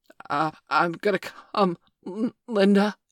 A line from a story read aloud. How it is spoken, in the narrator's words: he gasped